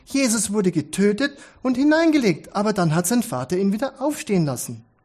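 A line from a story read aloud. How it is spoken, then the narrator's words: Calling out. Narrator (German): rief Jeremy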